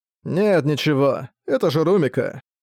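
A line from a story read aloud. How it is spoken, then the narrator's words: Calmer speech. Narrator (Russian): уже более спокойно сказал он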